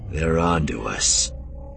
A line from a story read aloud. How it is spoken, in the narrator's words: Cliff growled